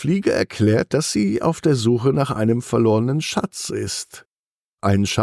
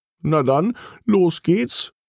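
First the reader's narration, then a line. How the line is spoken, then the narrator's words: Calling out. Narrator (German): ruft Costa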